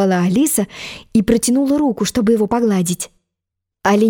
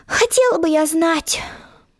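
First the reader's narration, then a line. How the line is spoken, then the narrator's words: Spoken aloud. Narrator (Russian): вслух ответила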